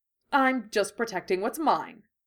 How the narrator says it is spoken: he said irritably

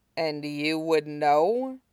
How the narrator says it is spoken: Aizawa asked aloud, dryly

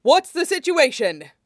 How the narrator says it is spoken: Ida bellowed

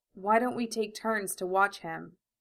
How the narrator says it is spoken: Al asked quietly

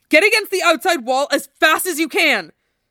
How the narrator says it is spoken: Zack shouted

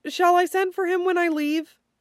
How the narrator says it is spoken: Dorian laughs, a little high-pitched to his own ears

